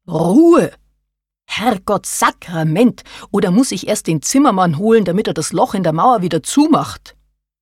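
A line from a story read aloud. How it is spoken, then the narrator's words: Bellowing in confusion. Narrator (German): Karin verstand immer noch nichts und brüllte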